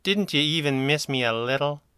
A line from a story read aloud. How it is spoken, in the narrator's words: purred into her radio ring